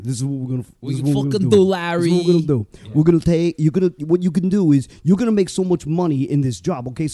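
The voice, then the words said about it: Imitates a heavy Brooklyn accent. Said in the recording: “Please do an impression of Carl, too, when you do it, because Carl has the biggest Brooklyn yeah, accent of all time.”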